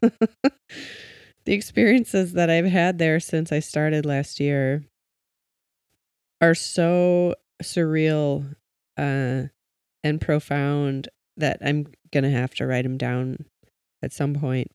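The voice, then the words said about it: Cracking, emotional voice. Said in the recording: “I don't know why my voice is cracking. I'm having all the feelings.”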